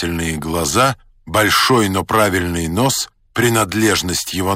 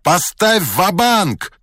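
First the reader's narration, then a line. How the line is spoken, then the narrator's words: Shouting. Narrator (Russian): кричал Вулич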